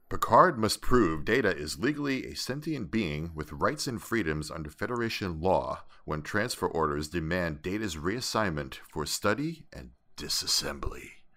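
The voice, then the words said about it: Fake radio announcer voice. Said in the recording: “great fake radio voice ... You could have done trailers during the 80s.”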